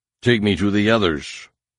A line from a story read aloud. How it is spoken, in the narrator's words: snarled, putting every iota of command into his voice